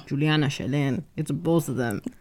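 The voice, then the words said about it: Put-on accent imitating a parent. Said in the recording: “Why are you doing that accent like that?”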